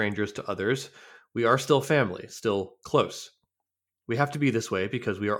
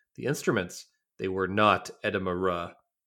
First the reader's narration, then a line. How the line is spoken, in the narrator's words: said firmly